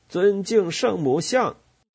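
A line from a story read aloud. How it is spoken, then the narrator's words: Shouting. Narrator (Chinese): 杰克叫喊起来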